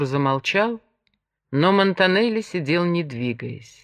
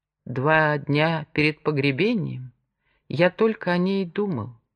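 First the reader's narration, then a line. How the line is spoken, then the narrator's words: Very quiet. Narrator (Russian): продолжал Артур совсем тихо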